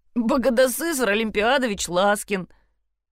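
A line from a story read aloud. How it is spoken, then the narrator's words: Laughing. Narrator (Russian): засмеялся Кирилл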